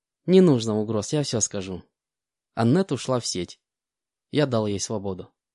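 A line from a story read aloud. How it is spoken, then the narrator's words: Calm reply. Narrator (Russian): спокойно ответил Ли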